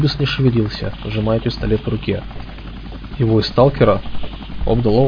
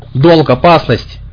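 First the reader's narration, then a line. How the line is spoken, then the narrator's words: Shouting. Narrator (Russian): крикнул он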